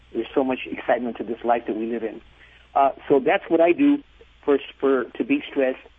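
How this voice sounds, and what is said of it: Hyper, excitable voice. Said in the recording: “as you can tell by my voice, I'm a little bit hyper”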